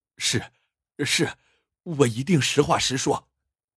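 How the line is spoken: Hurried. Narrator (Chinese): 他急忙点头说

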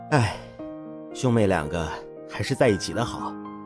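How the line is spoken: Sudden wistful sigh. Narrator (Chinese): 艾木忽然又一次感叹

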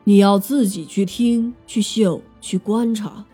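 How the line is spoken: Slow. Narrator (Chinese): 老鹿王缓缓地说

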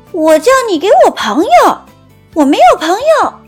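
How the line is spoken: Louder. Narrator (Chinese): 没礼貌公主更大声地说

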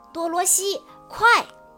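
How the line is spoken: Loud shout. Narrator (Chinese): 小矮人奥兹高声地叫道

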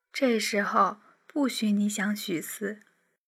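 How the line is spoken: Soft, gentle. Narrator (Chinese): 婉清轻声说

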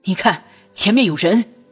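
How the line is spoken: Sudden loud. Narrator (Chinese): 朱四怀忽然大声道

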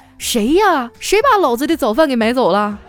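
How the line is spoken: Shouting repeatedly. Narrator (Chinese): 我喊了半天啊

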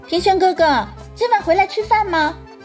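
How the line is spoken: Sudden calling out. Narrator (Chinese): 祝海棠突然从他身后叫住他

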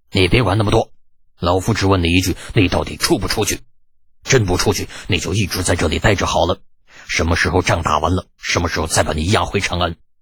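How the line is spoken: Angry voice. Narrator (Chinese): 李靖气得 怒声道

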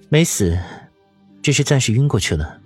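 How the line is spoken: Lowered voice. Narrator (Chinese): 邵婉如压低了声音问道

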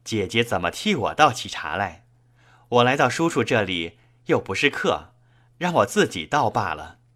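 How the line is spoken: Laughing. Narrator (Chinese): 笑道

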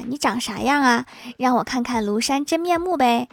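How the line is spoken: Curious question. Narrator (Chinese): 小哥哥特别好奇欢喜长什么样，于是便问他

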